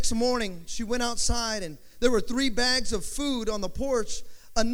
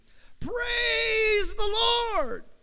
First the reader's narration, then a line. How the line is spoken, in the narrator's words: yelled